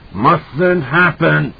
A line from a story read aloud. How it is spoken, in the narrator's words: it cried